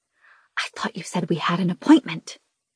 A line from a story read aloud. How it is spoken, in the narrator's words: I hiss at Des